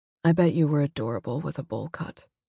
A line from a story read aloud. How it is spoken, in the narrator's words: said quietly